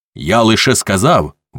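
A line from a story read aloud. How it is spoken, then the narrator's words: Shouted out. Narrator (Ukrainian): викрикнув Свенсон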